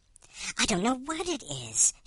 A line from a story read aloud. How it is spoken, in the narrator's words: she whispered